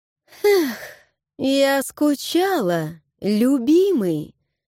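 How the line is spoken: Sugary singsong voice. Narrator (Russian): Пропела елейным голоском

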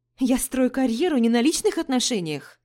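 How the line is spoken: Exclamation. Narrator (Russian): воскликнула я

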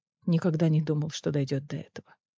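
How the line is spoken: Quiet. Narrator (Russian): тихо сказал Риз

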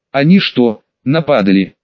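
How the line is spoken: Plain. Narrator (Russian): спросил я Элбана

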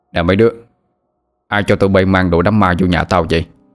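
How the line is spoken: Annoyed, raised voice. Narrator (Vietnamese): Ông bực mình cao giọng hỏi

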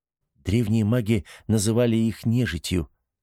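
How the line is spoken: Plain. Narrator (Russian): ответила Ниела

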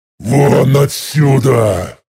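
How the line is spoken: Growl. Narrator (Russian): прорычал я

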